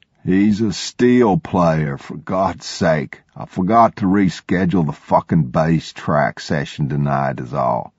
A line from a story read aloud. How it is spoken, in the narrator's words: He said slowly and deliberately